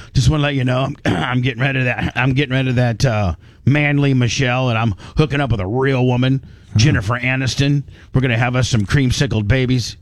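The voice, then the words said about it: Imitates another person's voice. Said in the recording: “my Barack Obama impersonation”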